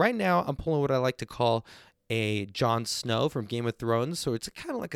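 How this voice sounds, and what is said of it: Usual voice. Nothing is said of it.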